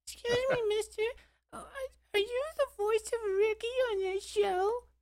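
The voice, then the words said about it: High-pitched child's voice. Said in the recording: “His voice wasn't that high, but I'll stick with it.”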